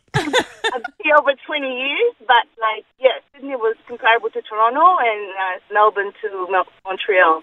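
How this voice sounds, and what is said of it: Speaks with a foreign accent. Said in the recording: “We could listen to you all day. We love your accent.”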